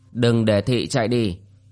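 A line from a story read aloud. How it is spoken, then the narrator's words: Cold. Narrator (Vietnamese): Đỗ Cửu lạnh lùng nói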